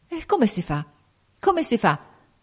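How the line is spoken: Confused stammering. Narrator (Italian): balbettava egli in preda a una confusione straordinaria

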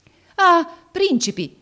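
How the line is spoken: Man exclaiming. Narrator (Italian): esclamò egli nel vederli

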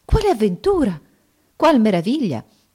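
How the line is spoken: Amazed exclamation. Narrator (Italian): Restò assai meravigliata al vedere le ulive mischiate alla polvere d'oro, sicché esclamò

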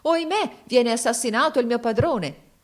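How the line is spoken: Exclamation. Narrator (Italian): si esclamò

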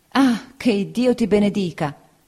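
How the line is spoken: Woman exclaiming. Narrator (Italian): esclamò la signora Bezze

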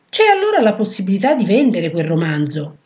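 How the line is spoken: Exclaimed. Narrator (Italian): esclamò

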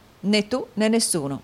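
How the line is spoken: Plain. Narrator (Italian): disse Nicola

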